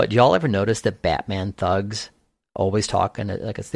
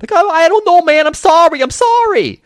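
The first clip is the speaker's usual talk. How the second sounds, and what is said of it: Faint New York thug accent, scared. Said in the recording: “there's a specific way that Batman thugs talk ... Especially when they're scared ... They have like this faint like New York or Brooklyn accent”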